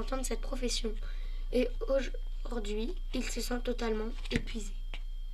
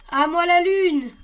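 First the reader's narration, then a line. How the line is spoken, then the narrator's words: Yelling. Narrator (French): hurle-t-il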